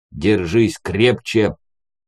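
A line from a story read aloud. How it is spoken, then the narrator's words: Growled. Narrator (Russian): рыкнул умник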